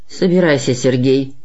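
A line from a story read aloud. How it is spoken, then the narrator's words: Sullen grumble. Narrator (Russian): угрюмо проворчал Ладышкин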